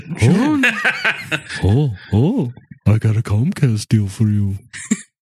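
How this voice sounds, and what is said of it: Goofy voice like Yogi Bear. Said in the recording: “You sound ... Like the ghost of Yogi Bear.”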